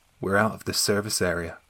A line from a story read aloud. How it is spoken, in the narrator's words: she replied very calmly